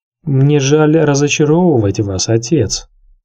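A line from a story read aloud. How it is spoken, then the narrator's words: Plain. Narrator (Russian): сказал Тирион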